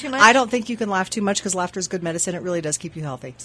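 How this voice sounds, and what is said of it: Husky, partly lost voice. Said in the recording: “A little Deborah Winger-ish today. I kind of lost my voice over the weekend. It's slowly coming back. ... Deborah Winger has a sexy voice.”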